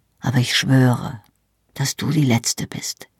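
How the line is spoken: Quiet. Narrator (German): sagte er leise

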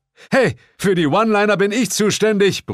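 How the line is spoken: Bellowed. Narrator (German): brüllte Bill

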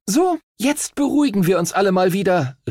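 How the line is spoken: Captain calling out. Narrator (German): rief die Kapitänin der Himmelsstürmer

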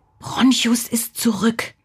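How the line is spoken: Whisper. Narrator (German): wisperte er

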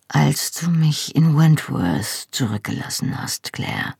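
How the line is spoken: Soft, downcast. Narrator (German): sagte er leise, ohne den Kopf zu heben

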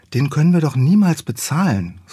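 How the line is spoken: Sighed. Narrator (German): seufzte Felice

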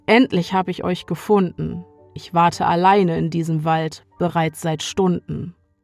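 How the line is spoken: Calm male voice. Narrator (German): sagt er ruhig

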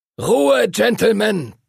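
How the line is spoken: Thundering. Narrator (German): donnerte Master Duncan

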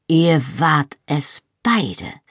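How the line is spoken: Slow. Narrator (German): sagte langsam

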